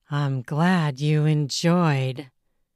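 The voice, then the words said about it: Very seductive voice. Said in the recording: “in a very seductive voice.”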